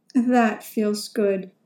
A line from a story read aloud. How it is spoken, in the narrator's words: replied